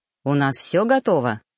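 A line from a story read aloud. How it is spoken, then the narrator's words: Plain. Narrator (Russian): спросил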